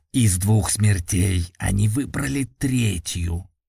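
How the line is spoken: Gloomy muttering. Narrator (Russian): хмуро пробурчал Эйлакс

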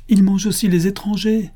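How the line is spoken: Exclaiming. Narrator (French): s'écria Dondin

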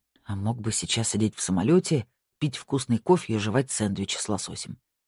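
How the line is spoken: Grumbled. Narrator (Russian): проворчал Марк

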